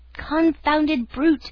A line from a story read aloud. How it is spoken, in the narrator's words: cried the unhorsed horseman, ashamed